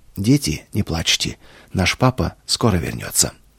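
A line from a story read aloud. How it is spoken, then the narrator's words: Suddenly calm after tears. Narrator (Russian): После слезной молитвы, вознесенной к небесному Отцу, она вдруг спокойным голосом сказала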